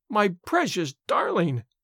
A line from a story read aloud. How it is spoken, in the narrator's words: wailed the mother